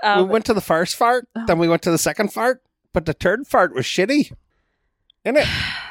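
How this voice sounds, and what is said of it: Put-on Irish accent. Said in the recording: “Am I spot on? Irish accent? ... Sure, totally.”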